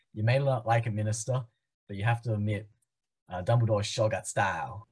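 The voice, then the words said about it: Poor imitation of character's accent. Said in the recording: “I'm gonna butcher the accent ... I have completely butchered the accent”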